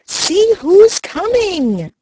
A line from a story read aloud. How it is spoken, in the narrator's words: cried Happy Jack